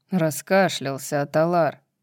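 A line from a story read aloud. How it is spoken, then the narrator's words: Grumbling. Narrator (Russian): проворчал Баксиан, который висел по другую сторону от Данана и сам находился не в лучшем состоянии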